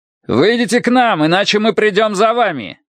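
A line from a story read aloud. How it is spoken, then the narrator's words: Officer shouting. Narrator (Russian): крикнул офицер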